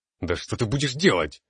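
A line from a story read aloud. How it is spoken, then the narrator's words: Angry bark. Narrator (Russian): в сердцах рявкнул я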